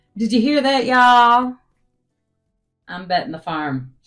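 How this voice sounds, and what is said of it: Exaggerated Southern twang. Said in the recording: “Too much twang.”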